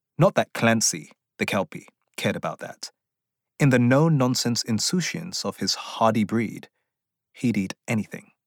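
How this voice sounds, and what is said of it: Speaks with a pleasant accent. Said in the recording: “he has a wonderful accent ... That's a voice I could really fall into.”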